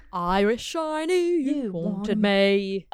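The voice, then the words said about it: Put-on British accent. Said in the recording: “we're doing a British accent now.”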